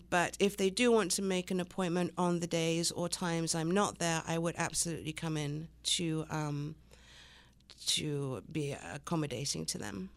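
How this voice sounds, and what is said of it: English accent. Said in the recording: “the French girl with the English accent.”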